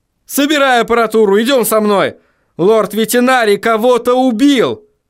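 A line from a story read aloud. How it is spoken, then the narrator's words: Shout. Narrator (Russian): крикнул Вильям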